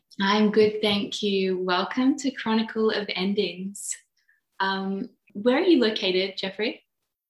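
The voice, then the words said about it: Australian accent. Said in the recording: “you have an Aussie accent”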